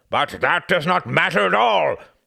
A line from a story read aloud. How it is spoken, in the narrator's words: thundered Churchill, his brow darkening